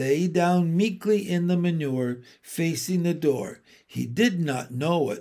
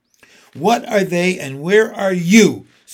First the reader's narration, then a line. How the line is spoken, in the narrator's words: screamed Wilbur